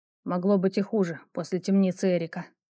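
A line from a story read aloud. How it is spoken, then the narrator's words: Mutter. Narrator (Russian): пробормотал Ровус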